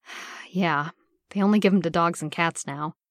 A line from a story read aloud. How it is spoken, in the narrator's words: Steve sighed